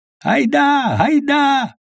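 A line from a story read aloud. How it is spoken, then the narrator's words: Wild yelling. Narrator (Russian): завопили дикие голоса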